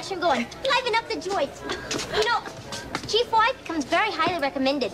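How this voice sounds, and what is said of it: Bad put-on accent. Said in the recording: “that is her accent as Lavoine. And if you thought that was bad”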